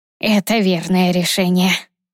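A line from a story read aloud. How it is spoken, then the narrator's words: Husky voice. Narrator (Russian): послышался хрипловатый голос Фортиса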